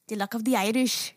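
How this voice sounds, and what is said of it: Attempted Irish accent. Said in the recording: “I cannot do an Irish accent. That's definitely one that I'm not good at ... that was pretty good ... That's the only thing I can say in an Irish accent.”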